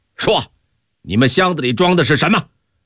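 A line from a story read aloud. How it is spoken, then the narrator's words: Harsh demanding question. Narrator (Chinese): 麻子长官厉声问道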